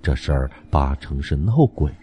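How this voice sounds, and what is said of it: Lowered, spooky frightening voice. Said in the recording (Chinese): “降低音量，用极其恐怖的声音说”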